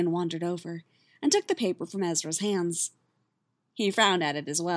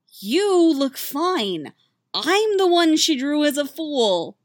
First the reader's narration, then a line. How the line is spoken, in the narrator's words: moaned Ezra